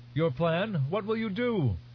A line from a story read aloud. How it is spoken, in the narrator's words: Questions were shouted at her from many places